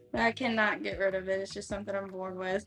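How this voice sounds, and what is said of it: Southern US country accent. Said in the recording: “I like your country accent ... it's a real country accent”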